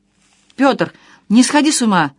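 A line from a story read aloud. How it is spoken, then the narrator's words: Cried out. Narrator (Russian): вскрикнула Наташа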